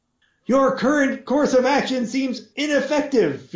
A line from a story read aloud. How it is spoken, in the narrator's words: Fee called out helpfully